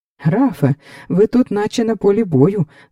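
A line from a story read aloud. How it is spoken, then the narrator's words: Exclaiming. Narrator (Ukrainian): вигукнув Фелікс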